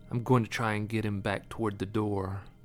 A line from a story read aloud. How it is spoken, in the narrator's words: He leaned close and whispered